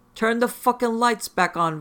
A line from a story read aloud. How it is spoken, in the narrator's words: Victor yelled